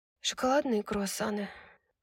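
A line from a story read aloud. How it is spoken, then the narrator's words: Hoarse reply. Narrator (Russian): хрипло ответила Брайс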